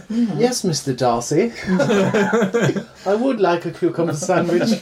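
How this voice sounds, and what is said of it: Exaggerated posh English accent. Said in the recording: “that's what an English accent sounds like ... I've been told I look like Miss Penelope. I'm going to do that accent.”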